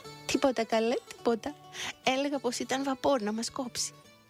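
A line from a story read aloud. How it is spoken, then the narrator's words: Cheerful, laughing. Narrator (Greek): γύριζε πίσω γελαστά και έλεγε στον τρομαγμένο αφέντη της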